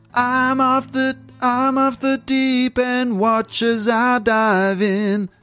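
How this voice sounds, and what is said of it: American singing accent. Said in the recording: “in the American singing accent”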